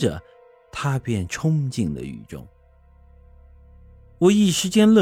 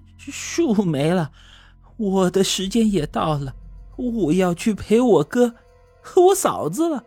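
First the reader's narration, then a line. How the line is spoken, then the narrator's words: Trembling voice. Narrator (Chinese): 他声音颤抖的说道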